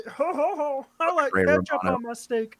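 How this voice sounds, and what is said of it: Silly Muppet-like character voice. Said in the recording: “peanut butter mouth ... I sound like a Muppet.”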